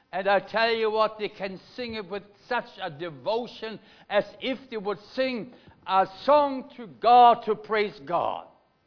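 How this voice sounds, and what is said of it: German accent. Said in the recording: “I come from Germany. You have picked it already on my accent ... I'm a German”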